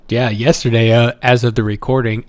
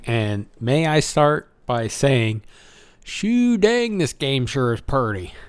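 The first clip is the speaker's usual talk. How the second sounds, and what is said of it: Put-on Southern accent. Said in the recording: “When did you come from the South?”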